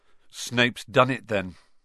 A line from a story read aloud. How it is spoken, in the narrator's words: said Ron